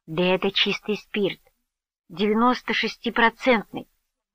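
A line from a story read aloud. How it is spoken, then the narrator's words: Plain. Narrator (Russian): ответила она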